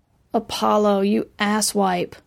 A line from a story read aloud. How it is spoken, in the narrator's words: She groaned